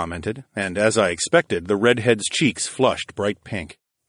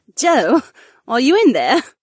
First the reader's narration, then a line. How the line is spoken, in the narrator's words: Sienna chuckled